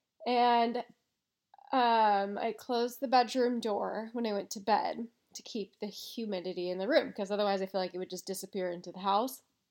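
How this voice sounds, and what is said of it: Stuffy, congested voice. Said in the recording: “I have a cold right now, as maybe some of you can hear”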